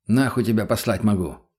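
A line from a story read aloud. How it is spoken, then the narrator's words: Muttered. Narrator (Russian): буркнул я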